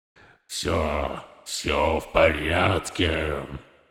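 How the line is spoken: Demonic growl. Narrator (Russian): прорычал крылатый демон ночным эльфом

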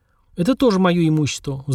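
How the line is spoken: Sighing. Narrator (Russian): вздохнул я

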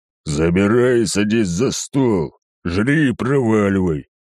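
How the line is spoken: Displeased growl. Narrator (Russian): недовольным голосом прорычал он

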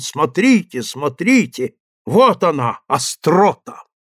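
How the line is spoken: Triumphant exclamation. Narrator (Russian): торжествуя, воскликнул

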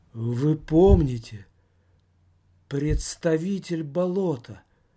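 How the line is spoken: Gloomy voice. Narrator (Russian): Мрачным голосом продолжала Мандрова

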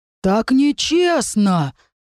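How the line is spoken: Howled. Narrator (Russian): взвыл один из каменных красавцев

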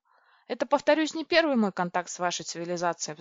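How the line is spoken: Sigh. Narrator (Russian): вздохнул он

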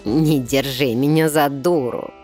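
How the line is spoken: Nasty cackle, creature. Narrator (Russian): мерзко хохотнула тварь

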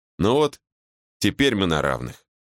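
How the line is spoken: Plain. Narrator (Russian): сказала она

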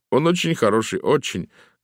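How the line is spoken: Sad. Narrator (Russian): грустно сказал мистер Аки-бомбо

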